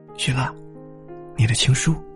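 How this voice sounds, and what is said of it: Quiet, hushed voice. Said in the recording (Chinese): “小声的说着，生怕打扰到他”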